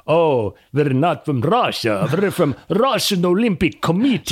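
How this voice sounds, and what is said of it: Put-on Russian accent. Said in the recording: “how bad is my Russian impersonation? ... No, it was great.”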